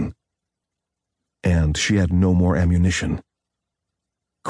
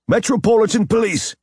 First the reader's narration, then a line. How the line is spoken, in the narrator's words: came the repeated shouts of at least a half dozen men